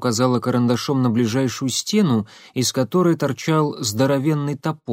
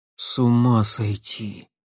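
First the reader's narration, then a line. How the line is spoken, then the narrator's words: Stunned exhale. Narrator (Russian): потрясенно выдохнул Лапшин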